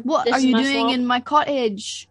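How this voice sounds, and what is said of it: Vaguely Scottish ogre accent. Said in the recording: “I was doing a Shrek accent a little bit. Like vaguely Scottish.”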